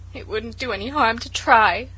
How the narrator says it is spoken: sobbed Felicity

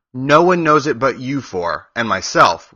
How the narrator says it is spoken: replied Oz

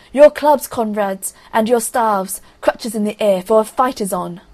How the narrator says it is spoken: Ivan shouted

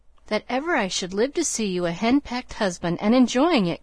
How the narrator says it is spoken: cried Joe with uplifted hands

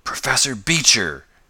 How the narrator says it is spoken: gasped the young inventor

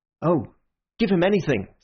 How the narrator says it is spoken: said Syme eagerly

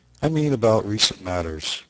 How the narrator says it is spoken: replied Bryce

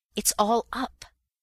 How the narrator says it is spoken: I gasped

